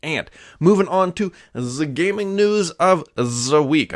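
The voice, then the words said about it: Put-on German accent. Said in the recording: “I don't know why I always do that with a German accent or whatever.”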